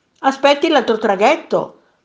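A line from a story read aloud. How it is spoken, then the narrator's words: Shouting sailor. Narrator (Italian): gridò un marinaio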